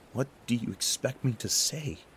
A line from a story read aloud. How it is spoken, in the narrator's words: I gasped